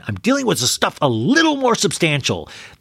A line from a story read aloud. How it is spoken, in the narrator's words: Kyle yelling at dinner, going